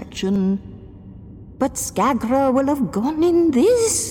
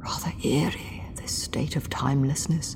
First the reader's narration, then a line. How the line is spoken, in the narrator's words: he whispered